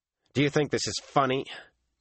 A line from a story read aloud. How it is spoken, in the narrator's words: Matt snarled